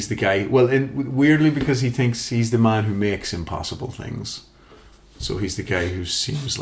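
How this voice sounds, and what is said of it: Usual voice. Nothing is said of it.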